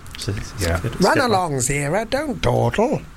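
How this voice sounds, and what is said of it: Imitates another person's voice. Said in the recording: “That's my Roddy McDowell impression.”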